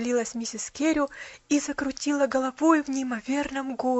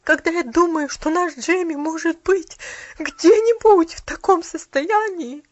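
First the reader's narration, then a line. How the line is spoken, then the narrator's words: Broken sobbing. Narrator (Russian): Послышались прерывистые всхлипывания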